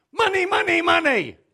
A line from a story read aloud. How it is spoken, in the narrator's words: He shouted